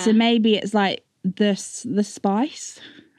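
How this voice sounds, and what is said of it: Put-on Australian accent. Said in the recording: “Why did you say it in an Australian accent?”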